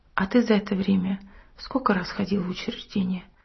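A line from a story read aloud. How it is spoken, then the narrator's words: Calm question. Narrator (Russian): Семен спокойно спросил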